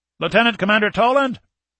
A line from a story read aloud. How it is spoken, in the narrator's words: a yeoman called out